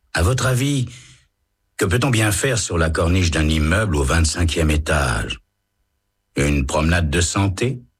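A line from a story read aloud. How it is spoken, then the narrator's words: Man's calm reply. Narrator (French): répond l'homme calmement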